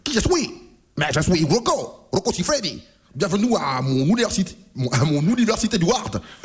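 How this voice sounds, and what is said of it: Silly put-on accent. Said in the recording (French): “Ma toi vraiment un accent stupido.”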